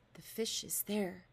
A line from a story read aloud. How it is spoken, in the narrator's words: he whispered